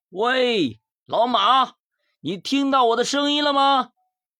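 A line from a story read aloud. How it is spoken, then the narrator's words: Shouting. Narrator (Chinese): 大喊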